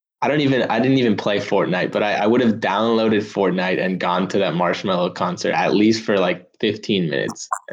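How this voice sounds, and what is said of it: Bored-sounding delivery. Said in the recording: “You sound bored.”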